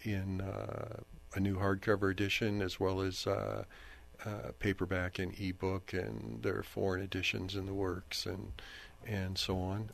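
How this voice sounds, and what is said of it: Raspy voice. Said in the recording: “my voice is really raspy ... that's the smoke”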